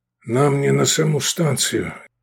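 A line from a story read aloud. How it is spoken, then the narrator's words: Husky voice. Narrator (Russian): сипло проговорил Ернаев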